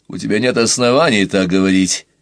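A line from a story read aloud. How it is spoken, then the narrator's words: Stern. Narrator (Russian): строго сказал Уваров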